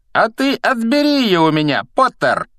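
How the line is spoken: Loud from above. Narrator (Russian): громко предложил он сверху

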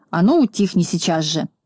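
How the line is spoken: Stern. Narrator (Russian): Знайка строго сказал

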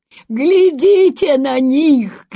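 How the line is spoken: Shouting old man. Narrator (Russian): кричал какой-то крепкий старик из Делфта

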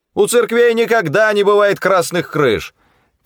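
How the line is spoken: Shouting back. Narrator (Russian): кричал в ответ Эд Ткач

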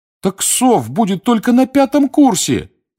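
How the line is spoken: Pleading. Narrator (Russian): взмолился Дин Томас

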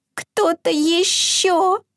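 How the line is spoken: Faint mouse-like squeak. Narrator (Russian): Пропищал изюмка едва слышно, словно мышонок

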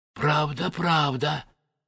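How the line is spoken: Tearful whisper. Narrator (Russian): шептал царь Горох, обливаясь слезами

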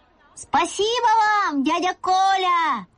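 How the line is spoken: Shouting after someone. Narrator (Russian): закричал я ему вслед

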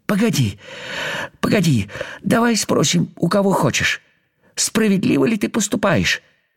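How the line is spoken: Pleading. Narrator (Russian): взмолился муравей

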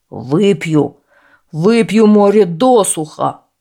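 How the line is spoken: Enraged giant roaring. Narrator (Russian): прорычал взбешенный великан

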